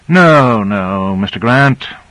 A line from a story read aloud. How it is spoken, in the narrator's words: Michaels sighed wearily